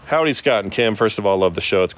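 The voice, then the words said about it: Yelling while reading aloud. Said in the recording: “you're yelling ... you're yelling”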